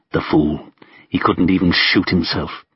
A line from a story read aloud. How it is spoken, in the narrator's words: he muttered to Vasily